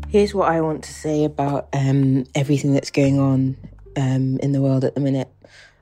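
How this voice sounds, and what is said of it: British accent. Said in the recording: “you can probably tell by my accent that I'm British”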